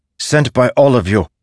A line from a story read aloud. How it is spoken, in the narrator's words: Zeth snapped